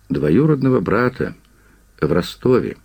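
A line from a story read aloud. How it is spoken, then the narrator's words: Sighing, quiet. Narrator (Russian): Пикуль вздохнул и негромко сказал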